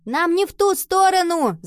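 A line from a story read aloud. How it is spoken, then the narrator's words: Puzzled shout. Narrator (Russian): закричала Нова, недоумевая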